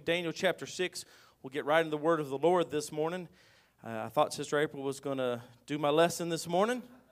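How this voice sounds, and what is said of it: Weak voice. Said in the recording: “My voice is a little bit weak still.”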